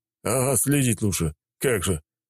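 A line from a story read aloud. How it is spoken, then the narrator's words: Grumbling. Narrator (Russian): пробурчал майор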